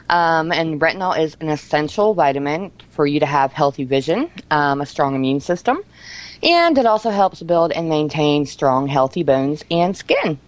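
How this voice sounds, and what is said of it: Slightly out of breath. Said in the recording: “a little bit out of breath”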